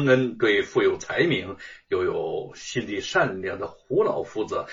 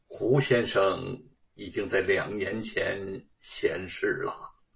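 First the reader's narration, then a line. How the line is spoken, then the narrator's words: Low sigh. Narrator (Chinese): 低声的叹道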